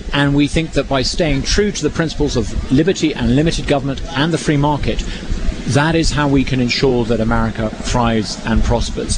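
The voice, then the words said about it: Noticeable non-local accent. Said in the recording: “as you can probably tell by my accent, I've only been here for 6 months”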